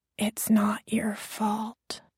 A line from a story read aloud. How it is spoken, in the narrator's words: I whispered